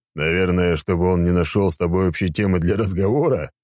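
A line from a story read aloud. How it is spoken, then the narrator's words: Short chuckle. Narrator (Russian): хохотнул в ответ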